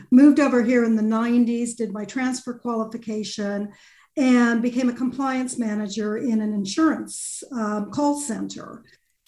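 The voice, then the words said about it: Californian American accent. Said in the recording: “I qualified in California, as you can tell from my accent”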